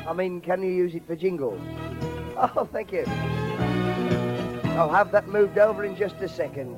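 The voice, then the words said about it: Strained, slightly odd-sounding voice. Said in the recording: “my voice is a bit funny... it's because of the singing and dancing that we did yesterday afternoon”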